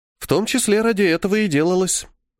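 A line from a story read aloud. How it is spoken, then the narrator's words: Calm reply. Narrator (Russian): спокойно ответила Милена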